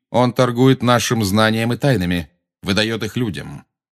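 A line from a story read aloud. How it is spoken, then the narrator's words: Calm. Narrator (Russian): спокойно сказал Магориан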